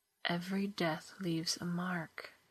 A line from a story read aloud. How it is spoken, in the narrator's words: she whispered